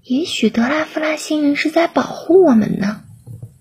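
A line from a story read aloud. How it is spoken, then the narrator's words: Quiet. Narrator (Chinese): 有人小声说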